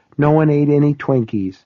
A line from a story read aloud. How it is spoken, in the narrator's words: she said a little sadly